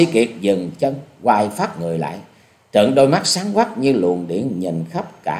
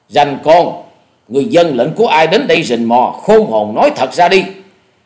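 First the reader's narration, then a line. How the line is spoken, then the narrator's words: Loud reply. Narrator (Vietnamese): Dạ Điểu Thần Ma lớn tiếng đáp lời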